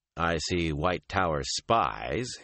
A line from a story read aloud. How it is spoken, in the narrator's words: he told her dryly